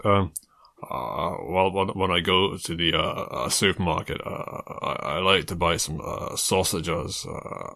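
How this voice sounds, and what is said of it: Slow, deep male impression voice. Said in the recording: “I mean, it's slow, deep. I mean, it's a man.”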